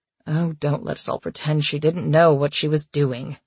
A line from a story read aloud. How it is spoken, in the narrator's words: Paige muttered